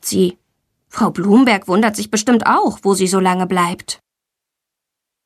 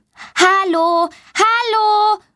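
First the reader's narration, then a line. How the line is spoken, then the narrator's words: Loud calling. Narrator (German): ruft sie laut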